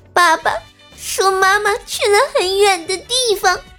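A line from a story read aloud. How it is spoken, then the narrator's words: Crying. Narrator (Chinese): 他哭了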